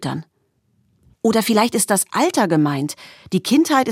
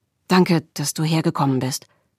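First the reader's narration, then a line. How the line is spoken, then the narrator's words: Said quietly. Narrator (German): sagte er leise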